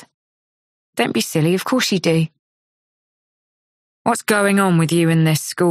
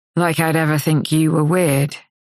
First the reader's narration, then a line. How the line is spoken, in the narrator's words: he says dryly